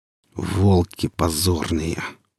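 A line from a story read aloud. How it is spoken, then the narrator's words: Hissed with hatred. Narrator (Russian): процедил с ненавистью сталкер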